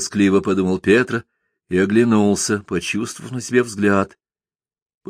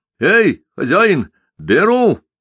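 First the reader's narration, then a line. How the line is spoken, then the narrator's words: Hasty shout. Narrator (Russian): закричал поспешно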